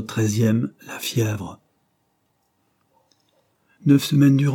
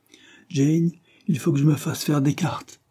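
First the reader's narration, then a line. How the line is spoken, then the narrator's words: Exclaimed. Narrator (French): s'écria-t-il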